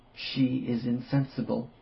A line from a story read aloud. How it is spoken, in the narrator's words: whispered